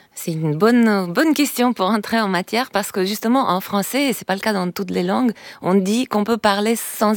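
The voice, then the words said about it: Slight accent. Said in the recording (French): “Vous avez un petit accent.”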